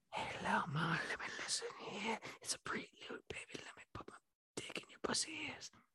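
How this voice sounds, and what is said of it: Whispering. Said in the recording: “whispering”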